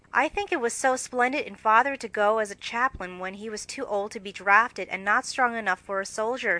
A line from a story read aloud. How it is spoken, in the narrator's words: said Meg warmly